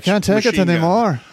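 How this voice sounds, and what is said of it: Put-on Scottish accent. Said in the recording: “That's my Scottish accent. ... It's almost as good as your blues accent.”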